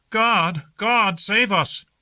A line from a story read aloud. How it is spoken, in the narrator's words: There was a little sound of frightened weeping on the roofs and balconies of the city, and people called out to us